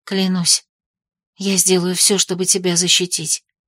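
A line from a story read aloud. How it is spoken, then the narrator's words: Whispered promise. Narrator (Russian): пообещала я ему шепотом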